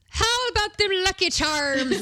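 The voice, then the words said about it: Bad fake Irish accent. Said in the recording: “Even trained actors can't do a real Irish accent ... this was not good. It was not good dialect work.”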